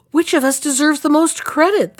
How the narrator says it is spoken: they all cried at once

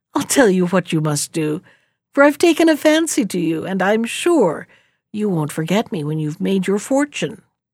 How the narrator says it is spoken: The old woman laughed kindly and said

